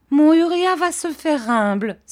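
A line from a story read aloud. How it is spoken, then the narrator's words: Mother exclaiming. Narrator (French): s'écria sa mère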